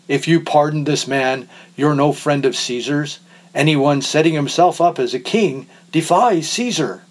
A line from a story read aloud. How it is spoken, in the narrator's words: the Jews shouted him down